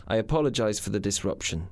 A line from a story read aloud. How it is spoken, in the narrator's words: he said